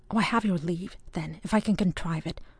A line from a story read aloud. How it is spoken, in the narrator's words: whispered Ewan